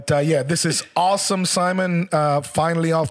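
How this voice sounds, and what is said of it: Usual voice. Nothing is said of it.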